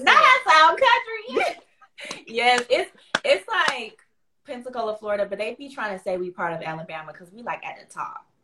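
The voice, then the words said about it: Light Southern US accent. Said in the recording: “You have an accent. ... Is it a Southern accent? ... A little bit. It's all a little country. ... It's not like heavy, but you, the certain words you say, I'm like, ooh, I hear the accent.”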